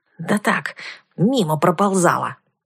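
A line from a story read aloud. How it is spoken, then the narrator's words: Snapped. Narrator (Russian): огрызнулась я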